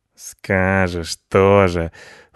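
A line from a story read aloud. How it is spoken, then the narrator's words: Snorting. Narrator (Russian): фыркнул Рыжопиус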